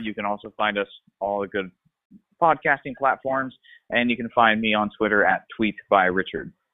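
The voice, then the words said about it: Pleasant, believable radio-style voice. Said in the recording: “Doesn't he have such a pleasant, like, podcast radio voice? ... anything he says is pretty much believable”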